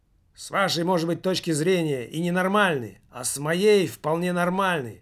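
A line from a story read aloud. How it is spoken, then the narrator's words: Muttering from behind. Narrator (Russian): пробурчал кто-то у Немаркетинга за спиной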